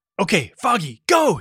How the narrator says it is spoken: He shouted

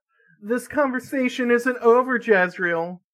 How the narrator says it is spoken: her mother yelled into the echoing hallways

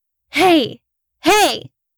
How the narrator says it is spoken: shouted

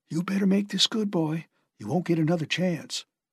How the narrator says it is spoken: Twist whispered in his ear

